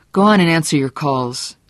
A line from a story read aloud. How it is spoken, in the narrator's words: said crossly